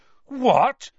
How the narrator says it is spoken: Harry gasped

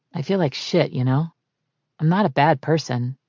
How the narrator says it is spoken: Jason said in a grown-up version of Connor's rasp

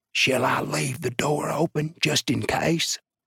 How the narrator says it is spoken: The jailer whispered

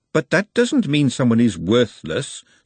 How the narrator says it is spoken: said Glenda firmly

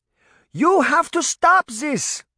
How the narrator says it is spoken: Granny yelled

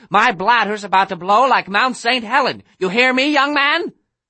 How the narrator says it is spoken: she was shouting like a maniac

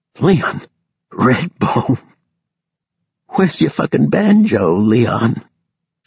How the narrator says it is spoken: a low gurgling laugh until finally she gasped

